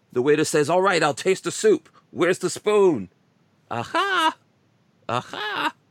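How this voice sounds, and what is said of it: Put-on Jewish accent. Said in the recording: “I don't know if I could do this in the Jewish accent.”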